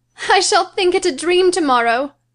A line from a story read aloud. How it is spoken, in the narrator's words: she cried